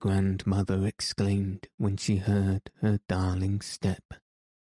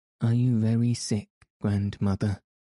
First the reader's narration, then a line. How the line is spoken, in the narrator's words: Heidi asking anxiously